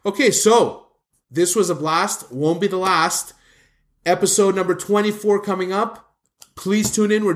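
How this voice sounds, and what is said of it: Hoarse, strained voice. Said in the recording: “You're losing your voice. ... my voice can't take much more of this. ... Yeah, I hear it. You're getting hoarse.”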